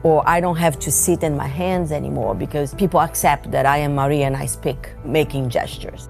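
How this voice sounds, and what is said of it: Heavy foreign accent. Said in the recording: “my heavy accent”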